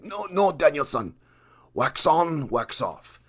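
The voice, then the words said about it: Poor imitation of movie karate mentor. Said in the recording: “my poor impression of Mr. Miyagi”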